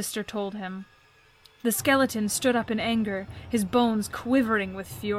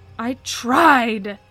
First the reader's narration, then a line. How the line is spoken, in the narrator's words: the skeleton snarled